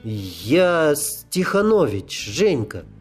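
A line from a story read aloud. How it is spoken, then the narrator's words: Breathless, forced out. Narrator (Russian): одышливо выдавил он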